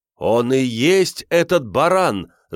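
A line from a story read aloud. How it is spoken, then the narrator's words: Crowd shouting. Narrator (Russian): закричали люди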